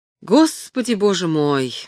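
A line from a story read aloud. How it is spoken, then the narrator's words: Sigh. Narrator (Russian): вздохнул Ремидж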